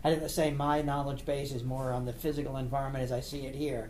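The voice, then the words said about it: East Coast American accent. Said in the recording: “Can you tell by that accent? ... No, I thought it was a Baltimore accent”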